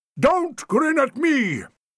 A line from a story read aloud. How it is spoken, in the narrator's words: thundered Sir Herbert Bassinger